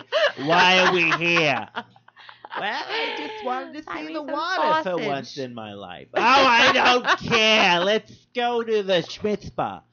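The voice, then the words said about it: Put-on Jewish accent. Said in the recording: “If you just say anything in a Jewish accent, you're fine.”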